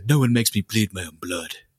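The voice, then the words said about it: Imitates another person's voice. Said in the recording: “Your impersonations are going downhill quick, man ... They're getting bad.”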